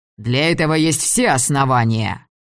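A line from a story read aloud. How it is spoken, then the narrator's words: Angry declaration. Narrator (Russian): Харлоу сердито заявил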